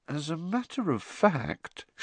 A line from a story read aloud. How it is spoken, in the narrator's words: she added, her voice now trembling slightly